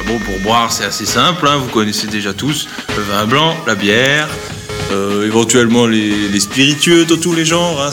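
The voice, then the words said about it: Heavily exaggerated regional French accent. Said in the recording (French): “je fous à mort l'accent, c'est terrible”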